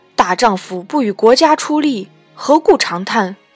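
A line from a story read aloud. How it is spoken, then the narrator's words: Stern, harsh. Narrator (Chinese): 随后一人厉声言曰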